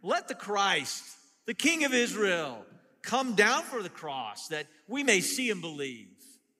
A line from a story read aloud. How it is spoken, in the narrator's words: the religious people shouted at him